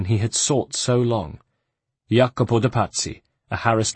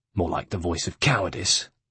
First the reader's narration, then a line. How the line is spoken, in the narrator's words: put in the third man harshly